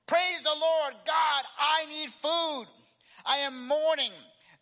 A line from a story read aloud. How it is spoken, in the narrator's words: shouted loudly